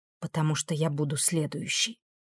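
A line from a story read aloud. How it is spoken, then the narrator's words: Girl's quiet reply. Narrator (Russian): тихо отозвалась девушка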